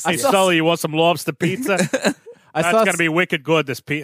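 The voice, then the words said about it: Put-on Boston accent. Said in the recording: “your New York accent and my ... Boston ... accent. ... Was pretty good. ... they're going to come back and say, you guys were both doing Maine accents. ... You said it like Peter. ... Peter Griffin.”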